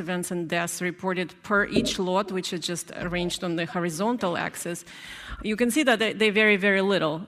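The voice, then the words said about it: Accent that is hard to understand. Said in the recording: “I know her accent, it can be a little bit hard to understand.”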